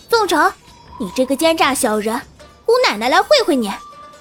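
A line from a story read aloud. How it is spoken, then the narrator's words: Loud. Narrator (Chinese): 小香儿大声道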